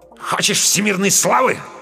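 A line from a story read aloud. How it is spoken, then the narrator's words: Angry, curt. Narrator (Russian): зло бросил Камов вслед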